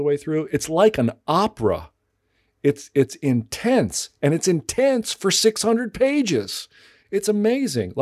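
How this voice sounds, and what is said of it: Excited, enthusiastic voice. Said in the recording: “you can hear in my voice, I feel like I've discovered, you know, a cache of gold treasure ... I'm just really excited to tell you about it”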